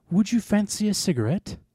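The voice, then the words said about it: Fake British accent. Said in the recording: “In a fake British accent.”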